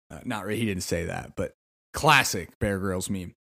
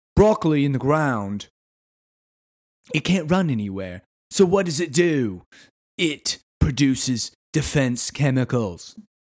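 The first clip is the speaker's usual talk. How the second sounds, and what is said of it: Poor, wandering put-on British accent. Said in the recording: “I can't do a British accent ... my accent just devolves and amoebas around from different country to region”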